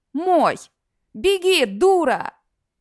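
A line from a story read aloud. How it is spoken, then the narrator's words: Necromancer yelling. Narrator (Russian): орал все тот же некромант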